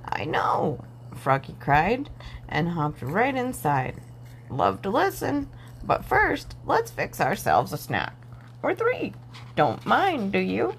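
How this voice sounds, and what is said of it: Deep croaky frog voice. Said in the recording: “croaked the same deep voice”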